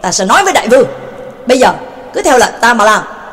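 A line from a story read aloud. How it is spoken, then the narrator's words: Angry shout. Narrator (Vietnamese): Quách Nhật Điệp Thanh tức tối hét lên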